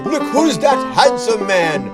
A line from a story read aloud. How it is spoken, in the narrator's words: She cried